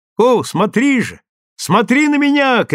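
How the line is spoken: Shouting to each other in Finnish. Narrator (Russian): кричали друг другу по-фински

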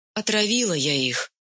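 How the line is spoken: Lifeless flat voice. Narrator (Russian): безжизненным голосом ответила Онюшка

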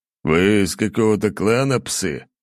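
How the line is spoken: Snorting. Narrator (Russian): хмыкнул генерал

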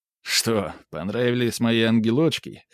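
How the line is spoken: Chuckling. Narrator (Russian): хохотнул хозяин

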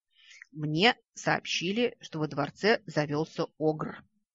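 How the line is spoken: Calm. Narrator (Russian): спокойно известил он

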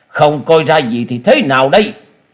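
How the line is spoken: Angry snort. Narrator (Vietnamese): Tứ độc thư sinh trên mặt tất cả đều biến sắc, tức giận hừ lên một tiếng

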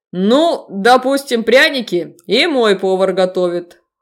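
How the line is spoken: Snorting. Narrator (Russian): хмыкнул Себастьян

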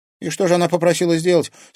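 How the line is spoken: Plain. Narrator (Russian): спросила Женя Степанова

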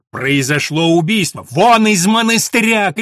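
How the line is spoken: Shouting. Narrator (Russian): кричал Филипп

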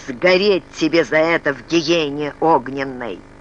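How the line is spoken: Angry creaky voice. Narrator (Russian): Вспыхнув от гнева, он скрипучим голосом произнес

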